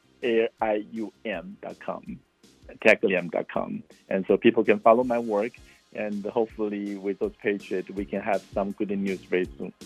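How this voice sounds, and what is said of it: Non-native English accent. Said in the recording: “my accent”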